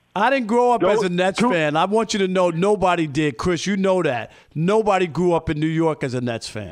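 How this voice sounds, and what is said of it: Northeastern US New York accent. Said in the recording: “You're from New York, so I can hear it in your voice ... I hear it in your voice ... I can hear that Northeastern in your voice.”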